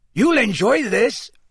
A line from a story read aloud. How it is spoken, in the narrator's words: said Hagrid gruffly